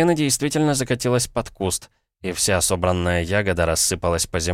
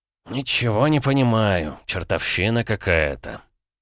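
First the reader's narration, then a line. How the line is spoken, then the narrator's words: Mutter. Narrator (Russian): пробормотал он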